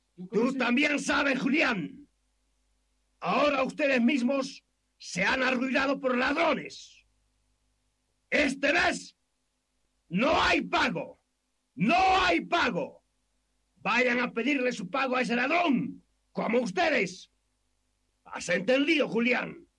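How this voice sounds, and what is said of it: Shouting angrily. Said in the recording (Spanish): “¿Por qué gritas tanto, patrón?”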